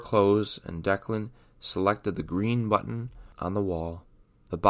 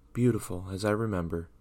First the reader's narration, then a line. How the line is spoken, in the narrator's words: Declan whispered to himself, as his gaze was in awe of the scenery around him